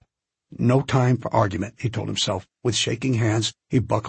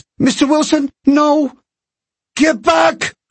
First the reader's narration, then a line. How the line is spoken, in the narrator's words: cried Wilson